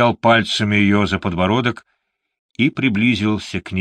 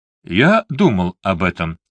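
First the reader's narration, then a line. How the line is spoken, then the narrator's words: Calm reply. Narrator (Russian): спокойно ответил Морган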